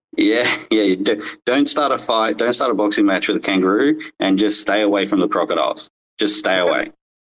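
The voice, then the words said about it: Australian accent. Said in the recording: “People might be curious of where your accent derives from ... I grew up in Australia. I live in Northern Australia”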